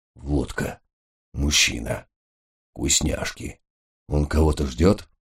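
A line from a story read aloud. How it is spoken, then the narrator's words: Whispered. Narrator (Russian): Гесс шепнул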